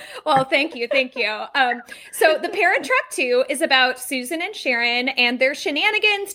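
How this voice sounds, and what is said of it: Usual voice. Nothing is said of it.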